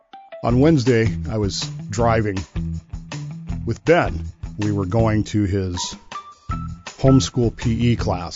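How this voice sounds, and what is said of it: Voice sounds a little off. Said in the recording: “my voice is a little off this morning”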